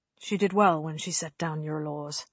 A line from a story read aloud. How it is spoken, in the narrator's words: he murmured